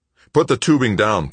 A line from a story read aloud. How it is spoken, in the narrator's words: Paul snapped